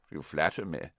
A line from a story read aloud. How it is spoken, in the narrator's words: said Dumbledore calmly